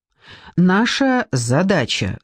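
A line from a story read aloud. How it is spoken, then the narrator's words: Excited, unusually loud. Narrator (Russian): сказала она, и голос ее от волнения звучал непривычно громко на весь зал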